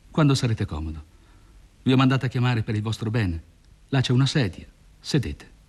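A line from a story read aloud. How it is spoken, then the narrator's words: Cold speech. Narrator (Italian): freddamente, poi disse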